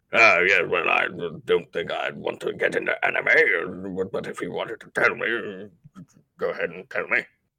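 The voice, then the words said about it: Frasier Crane impression. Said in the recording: “I did an impression of freaking Frasier”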